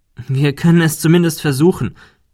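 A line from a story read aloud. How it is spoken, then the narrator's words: Confident laughing reply. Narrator (German): entgegnete Ben und lachte selbstsicher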